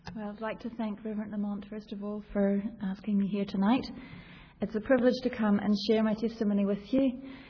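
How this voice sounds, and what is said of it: New Zealand accent. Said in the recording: “I don't know if you can hear the accent there still. I'm originally from New Zealand”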